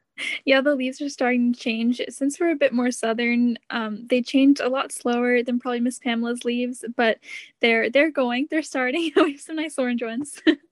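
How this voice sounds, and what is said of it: Southern American accent. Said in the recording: “that wonderful southern accent way”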